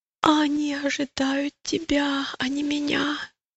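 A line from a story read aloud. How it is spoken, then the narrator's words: Groaning. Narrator (Russian): простонал христианин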